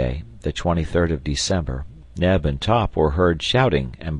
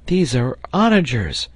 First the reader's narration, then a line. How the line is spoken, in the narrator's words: cried Herbert